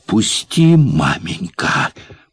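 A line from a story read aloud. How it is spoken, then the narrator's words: Hiss. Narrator (Russian): прошипела Маня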